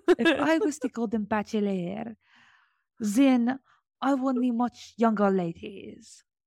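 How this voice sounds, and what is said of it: Attempted French accent. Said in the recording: “I can't do a French accent. ... try to do it. ... Good job. That was beautiful.”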